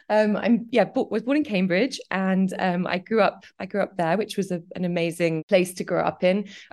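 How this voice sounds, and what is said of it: Slight English accent. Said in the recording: “I'm England. I was born in Cambridge. Can you hear the accent? slightly.”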